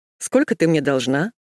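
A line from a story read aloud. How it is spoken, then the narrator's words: Cheerful question. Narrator (Russian): весело спросил Ник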